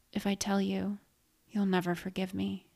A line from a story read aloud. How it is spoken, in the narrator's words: I whispered